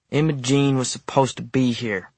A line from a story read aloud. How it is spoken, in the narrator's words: he mumbled